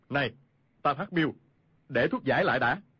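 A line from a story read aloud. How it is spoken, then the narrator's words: Shouted. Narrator (Vietnamese): Khu Sử Cơ quát lên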